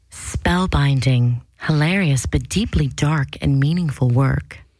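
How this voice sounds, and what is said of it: Announcer-style radio voice. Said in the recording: “I'm going to try to do with a good radio voice ... Get close. Eat the mic.”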